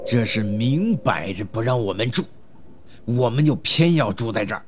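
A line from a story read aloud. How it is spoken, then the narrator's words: Angry voice. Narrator (Chinese): 三人中的老大怒声说道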